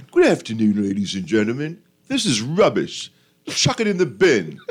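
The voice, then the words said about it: Put-on British accent. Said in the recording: “You should use a British accent next time.”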